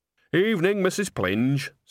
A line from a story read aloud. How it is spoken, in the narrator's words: said Nanny cheerfully